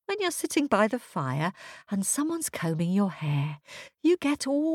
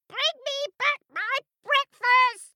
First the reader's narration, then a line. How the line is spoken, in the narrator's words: Her screech echoed round the woods like a murder of crows